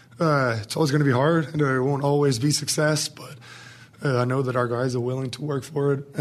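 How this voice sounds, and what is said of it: Slightly hoarse, strained voice. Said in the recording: “He's already lost his voice, he said. So that's why he sounds a little hoarse”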